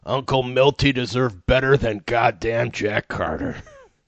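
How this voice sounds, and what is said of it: Imitates another person's voice. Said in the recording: “That was my impersonation of Mickey Rooney.”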